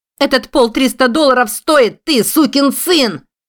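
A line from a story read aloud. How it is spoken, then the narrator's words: Shouting. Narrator (Russian): закричала Нелли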